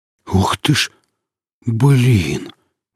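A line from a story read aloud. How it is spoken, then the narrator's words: Breathless exclamation. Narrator (Russian): выдохнул фельдшер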